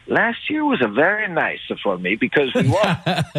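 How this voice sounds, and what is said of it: Bad put-on Italian accent. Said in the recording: “my crappy Italian accent”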